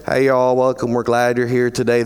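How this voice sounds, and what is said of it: Put-on rural Southern US accent. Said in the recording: “a certain accent ... people who come from the rural South”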